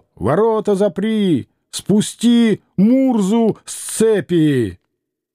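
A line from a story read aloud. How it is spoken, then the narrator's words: Stern shout from above. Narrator (Russian): суровый голос кричал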